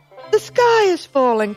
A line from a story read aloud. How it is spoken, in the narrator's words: cried Henny Penny